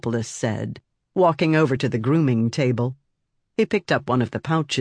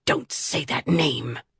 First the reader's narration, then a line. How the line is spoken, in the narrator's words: hissed